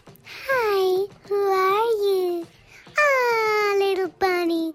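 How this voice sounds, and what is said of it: Creepy Fluttershy character voice. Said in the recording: “a wee celebrity impression ... Almost as creepy as Mickey Mouse ... Fluttershy. From My Little Pony”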